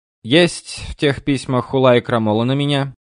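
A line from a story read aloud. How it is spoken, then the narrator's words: Stern question. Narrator (Russian): строго спросил Эрнст Иоганн Берон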